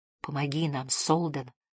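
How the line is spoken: Whispered. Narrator (Russian): прошептал он

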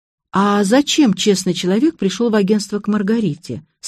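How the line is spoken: Plain. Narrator (Russian): спросила я

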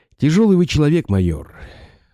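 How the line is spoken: Sighing. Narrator (Russian): вздохнул Радаев

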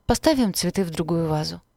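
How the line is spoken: Warm, smiling. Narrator (Russian): ласково улыбнулась мать

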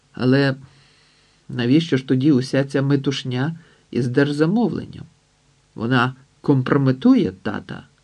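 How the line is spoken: Cold reply. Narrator (Ukrainian): Август відповів не менш холодно, ніж Макс

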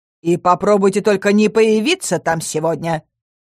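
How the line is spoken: Stern. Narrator (Russian): Строго произнесла она

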